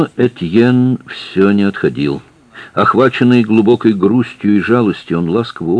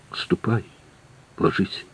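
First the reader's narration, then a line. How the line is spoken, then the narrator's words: Whisper. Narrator (Russian): прошептала Катрин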